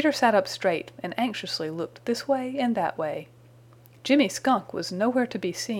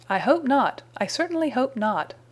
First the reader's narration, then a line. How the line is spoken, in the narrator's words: cried Mrs